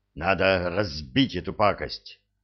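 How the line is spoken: Breathless exhale. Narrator (Russian): выдохнул Энет

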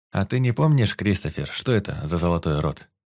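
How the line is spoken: Indifferent question. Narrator (Russian): спросил безразличным голосом

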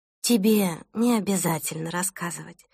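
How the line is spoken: Sleepy speech. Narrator (Russian): сонно проговорила Селеста

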